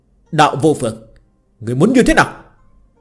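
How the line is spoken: Angry shout. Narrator (Vietnamese): Vương đạo nhân giận dữ quát lên

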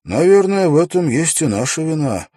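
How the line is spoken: Sigh. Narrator (Russian): вздохнул Уилл

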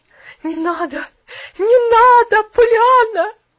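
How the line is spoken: Anguished pleading woman. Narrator (Russian): Взмолилась миссис Керри и закрутила головой в неимоверном горе

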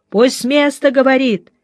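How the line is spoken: Shouting from crowd. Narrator (Russian): кричали из зала

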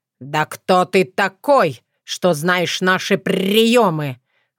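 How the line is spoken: Indignant growl. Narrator (Russian): возмущенно рыкнул он

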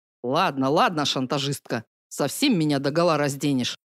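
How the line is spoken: Involuntary grumbling reply. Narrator (Russian): невольно проворчал Акирх в ответ

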